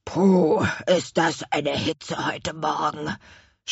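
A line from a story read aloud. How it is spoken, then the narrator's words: Groaning. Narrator (German): stöhnte der Chef der Apfelmännchen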